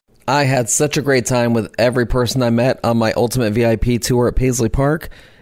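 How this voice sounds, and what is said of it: Hoarse, fading voice. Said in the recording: “I'm losing my voice. That cannot be easy on your ear holes ... Hopefully my voice will be back by the next episode”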